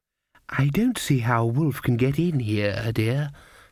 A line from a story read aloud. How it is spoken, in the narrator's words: said the grandmother kindly